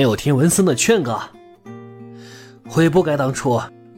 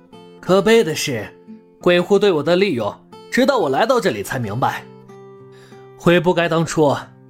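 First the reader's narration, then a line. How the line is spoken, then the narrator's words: Laughing loudly. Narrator (Chinese): 王兵大笑一声，继续说道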